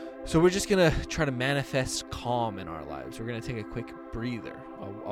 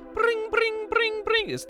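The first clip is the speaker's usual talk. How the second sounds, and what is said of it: Imitates a water alarm sound. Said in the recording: “my impression... That's a water alarm.”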